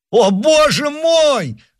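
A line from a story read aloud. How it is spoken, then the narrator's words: Desperate shouting. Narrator (Russian): в отчаянии кричал Оливен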